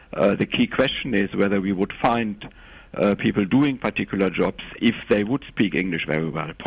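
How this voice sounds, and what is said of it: Strong German accent in English. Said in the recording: “I thought I could tell from your accent that you're German ... your English is very good, but you do have quite a strong German accent”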